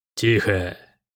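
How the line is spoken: Hissing general. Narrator (Russian): прошипел генерал

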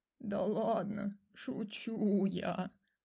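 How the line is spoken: Sighing. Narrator (Russian): вздохнула жаба

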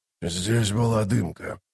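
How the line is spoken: Grumbling mutter. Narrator (Russian): пробурчал он

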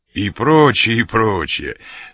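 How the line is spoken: Laughing interruption. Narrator (Russian): смеясь, перебил

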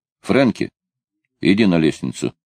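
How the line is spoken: Plain. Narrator (Russian): сказал Бернс

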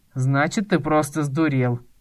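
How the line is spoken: Summarized with a snort. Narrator (Russian): резюмировал Савинский, хмыкнув

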